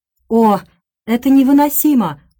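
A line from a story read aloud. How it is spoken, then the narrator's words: Exclaimed. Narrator (Russian): воскликнул Хёрст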